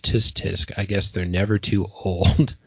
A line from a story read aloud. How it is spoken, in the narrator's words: the cab driver looks at him in judgment and mutters